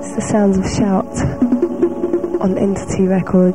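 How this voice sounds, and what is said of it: Very mellow, smooth voice. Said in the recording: “in my most mellowest voice ever.”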